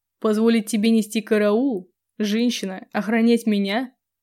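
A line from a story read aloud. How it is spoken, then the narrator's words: Drowsy snort. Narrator (Russian): фыркнул Грегордиан, тогда как его веки стали просто неподъемными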